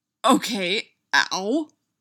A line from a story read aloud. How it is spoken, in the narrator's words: Styles grunted